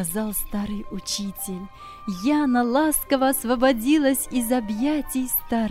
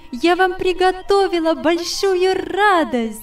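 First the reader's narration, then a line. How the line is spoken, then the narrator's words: Jubilant exclamation. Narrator (Russian): воскликнула она, ликуя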